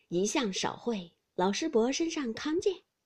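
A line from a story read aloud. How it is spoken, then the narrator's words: Laughing together. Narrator (Chinese): 宝玉、薛蟠都笑道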